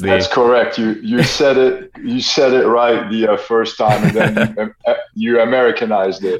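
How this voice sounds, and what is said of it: French accent. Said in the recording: “I think he's got a French accent.”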